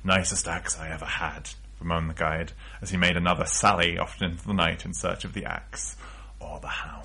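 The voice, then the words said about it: Strained character voice. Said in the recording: “I ruined my throat doing that voice”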